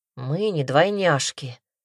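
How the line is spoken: Grumbled mutter. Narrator (Russian): буркнул Томас

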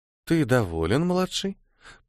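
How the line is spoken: Cooing. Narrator (Russian): проворковала Аурелия

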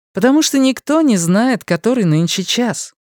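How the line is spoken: Cheerful. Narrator (Russian): весело ответила Люси

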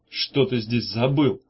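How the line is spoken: Plain. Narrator (Russian): спросил Меф

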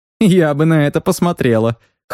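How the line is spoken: Snorting. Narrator (Russian): хмыкнула Кая

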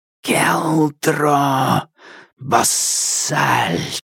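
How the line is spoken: Hissing through smoke. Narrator (Russian): прошипел он сквозь дым

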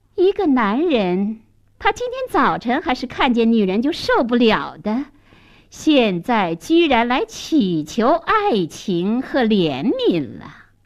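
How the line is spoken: Sneering. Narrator (Chinese): 女店主冷笑了

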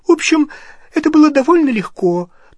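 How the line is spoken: Thin voice. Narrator (Russian): тонким голосом сообщила Гермиона

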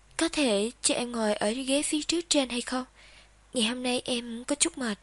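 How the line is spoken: Tense but smiling. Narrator (Vietnamese): Nghiêm Nghiên Hạnh cứng người lại một chút, nhưng vẫn mỉm cười giải thích

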